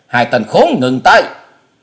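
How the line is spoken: Old man's thunderous shout. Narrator (Vietnamese): tiếng thét của lão già tựa như sấm nổ lưng trời

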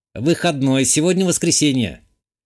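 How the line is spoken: Computer assistant snort via speakers. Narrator (Russian): хмыкнул из динамиков сервера компьютерный помощник

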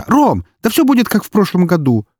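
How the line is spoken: Exclaiming. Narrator (Russian): воскликнула она

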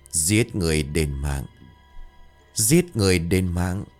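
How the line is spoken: Deep hoarse voice from child. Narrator (Vietnamese): từ trong cổ họng của thằng bé phát ra một cái giọng ồm ồm

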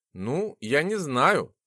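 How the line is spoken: Confused babbling. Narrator (Russian): растерянно пролепетала сестра

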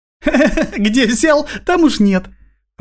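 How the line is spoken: Girl laughing. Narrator (Russian): рассмеялась девчонка

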